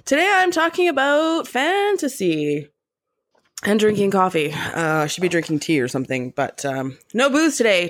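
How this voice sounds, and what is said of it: Raspy, sick-sounding voice. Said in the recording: “I'm a little sick today, so excuse the raspy voice and if there's any throat clearing or coughing noises”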